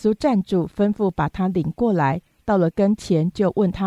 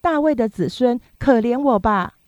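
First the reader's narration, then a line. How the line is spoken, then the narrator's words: Shouting ever louder. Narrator (Chinese): 他却越发喊叫说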